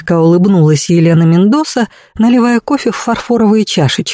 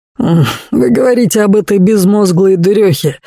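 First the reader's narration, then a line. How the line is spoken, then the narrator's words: Carefree snort. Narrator (Russian): беспечно хмыкнул Дэнни Дэйн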